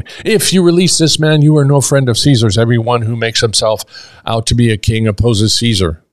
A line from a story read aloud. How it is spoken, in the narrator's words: the Jews cried out, saying